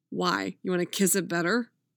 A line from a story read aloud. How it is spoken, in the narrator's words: Jason laughed